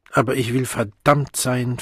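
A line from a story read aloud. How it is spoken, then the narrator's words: Suddenly angry. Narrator (German): fügte er plötzlich zornig hinzu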